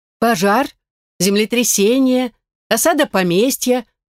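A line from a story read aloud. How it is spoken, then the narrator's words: Growled. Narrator (Russian): прорычала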